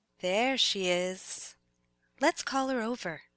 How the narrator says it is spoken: The Red Queen says in a mysterious voice

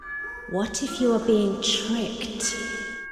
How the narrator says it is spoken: they hissed

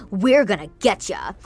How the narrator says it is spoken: Easton growled

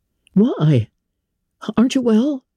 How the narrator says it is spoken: his son exclaimed

